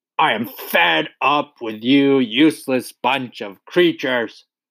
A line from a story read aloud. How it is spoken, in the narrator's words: roared the Trunchbull